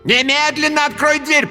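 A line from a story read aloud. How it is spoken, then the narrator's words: Shouting. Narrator (Russian): прокричала Ниниэль Джалиновна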